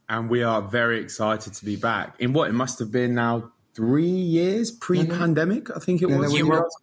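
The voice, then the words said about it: British accent. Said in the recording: “a good cheeky British accent”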